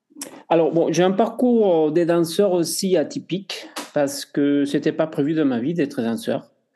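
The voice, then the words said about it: Spanish accent speaking French. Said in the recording (French): “Je suis espagnol, vous entendez mon accent.”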